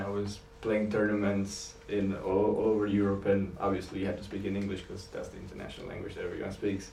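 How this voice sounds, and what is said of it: Eastern European accent in English. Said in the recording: “my accent ... someone else that was actually from East Europe as well”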